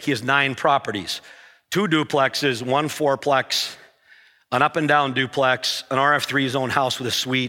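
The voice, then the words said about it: Voice with a slight cold. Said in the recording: “I have a little bit of a cold.”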